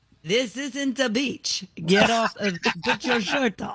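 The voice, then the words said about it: Put-on Italian accent, sounds Russian. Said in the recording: “Italian accent? Do it again. ... Sounds more Russian.”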